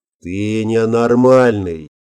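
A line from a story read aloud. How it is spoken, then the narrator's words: Grim concluding tone. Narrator (Russian): мрачно заключил генерал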